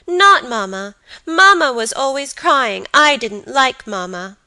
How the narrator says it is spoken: cried the boy resolutely

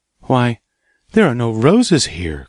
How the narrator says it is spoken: cried Gerda

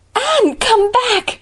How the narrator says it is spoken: shrieked the latter as soon as she found her voice

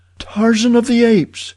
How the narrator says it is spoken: she cried

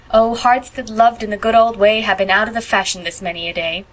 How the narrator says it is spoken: trilled Phil mockingly

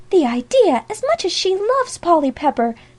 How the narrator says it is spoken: cried Sally Moore

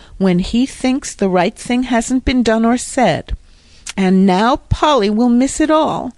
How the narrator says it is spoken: groaned Jasper, his head in his hands

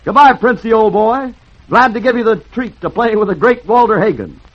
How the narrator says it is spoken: he grinned cheerfully ... shouted

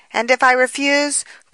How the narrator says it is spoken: cried the girl, trying desperately to gain time

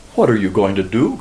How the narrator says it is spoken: cried Leila in accents of fear

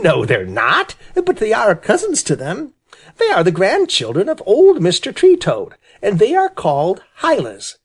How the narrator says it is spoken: said Jerry Muskrat, laughing and rubbing his hands in great glee

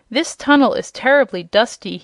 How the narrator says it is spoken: he growled angrily

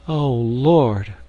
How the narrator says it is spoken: groaned Polynesia in my ear

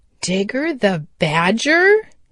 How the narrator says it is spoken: he exclaimed

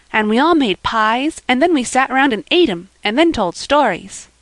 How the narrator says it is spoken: cried little Davy

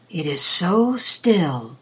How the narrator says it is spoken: the Rat whispered again after a silence

